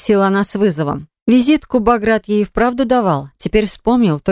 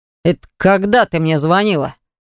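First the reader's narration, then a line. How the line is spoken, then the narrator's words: Deep bass voice. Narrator (Russian): пробасил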